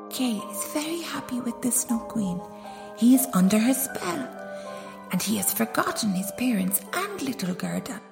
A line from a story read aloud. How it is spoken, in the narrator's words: The old lady whispered to him